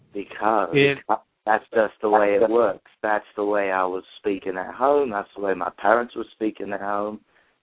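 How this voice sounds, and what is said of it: English accent. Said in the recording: “you still have the accent ... How do you have an English accent?”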